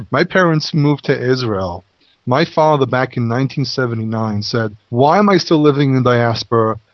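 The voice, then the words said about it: English accent, not American. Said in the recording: “I don't have an American accent. My accent is English.”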